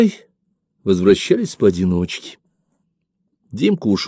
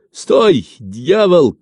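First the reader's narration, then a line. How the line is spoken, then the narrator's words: Shout. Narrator (Russian): крикнул кто-то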